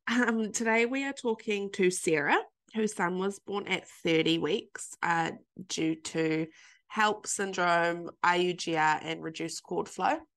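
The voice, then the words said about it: Stuffy, slightly nasal voice. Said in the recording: “I'm still a little bit snuffly, a little bit stuffy ... I sound a bit nasally and a bit off ... Bit of hay fever probably in there as well”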